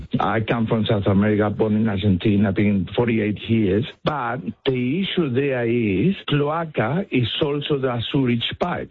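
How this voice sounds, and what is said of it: Strong Spanish accent. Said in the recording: “I have a very strong Spanish accent.”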